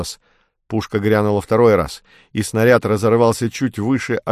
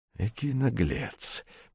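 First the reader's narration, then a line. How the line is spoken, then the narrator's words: Through gritted teeth. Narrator (Russian): процедил сквозь зубы Атос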